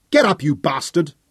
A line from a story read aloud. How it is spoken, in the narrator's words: snarled Fergus